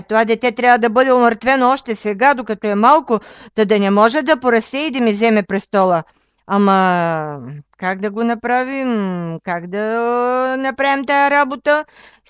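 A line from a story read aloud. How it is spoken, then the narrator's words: King shouting. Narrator (Bulgarian): викнал царя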